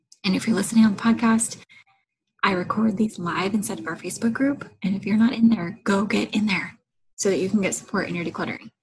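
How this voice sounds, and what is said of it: Quiet, hushed speaking voice. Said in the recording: “I'm talking kind of quiet ... real mom voice, where we talk quiet enough that we don't wake up the baby, but loud enough that everybody on the podcast can hear us”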